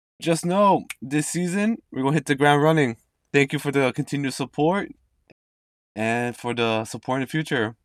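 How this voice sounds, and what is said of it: Slightly raspy voice. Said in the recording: “apologize for my voice. I have a bit raspy throat right now.”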